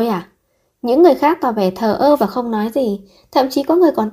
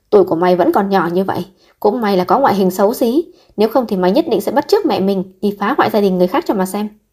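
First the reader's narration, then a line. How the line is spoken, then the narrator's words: Aunt shouting angrily. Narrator (Vietnamese): Dì cả của Trương Tuyết Lạp tức giận hô lên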